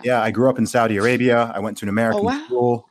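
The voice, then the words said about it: Accent between American and British. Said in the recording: “my accent, as you can probably hear, it's somewhere between American and British.”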